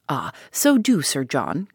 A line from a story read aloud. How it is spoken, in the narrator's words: cried Mrs